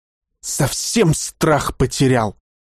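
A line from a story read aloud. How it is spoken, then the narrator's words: Indignant hiss. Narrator (Russian): зашипел майор в негодовании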